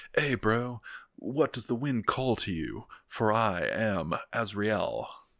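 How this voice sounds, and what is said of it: Laid-back bro-accent elf voice. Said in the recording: “They might have more of like a bro accent.”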